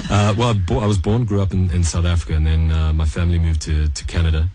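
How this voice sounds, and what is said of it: Mixed accent with many influences. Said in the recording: “I'm getting nuances of all sorts of accents.”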